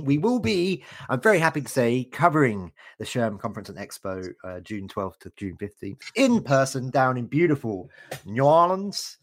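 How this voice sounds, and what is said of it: British accent. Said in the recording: “my terrible British accent trying to pronounce that”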